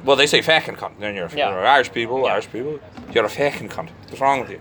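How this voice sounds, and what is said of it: Bad put-on Irish accent. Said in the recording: “Pardon my terrible Irish accent”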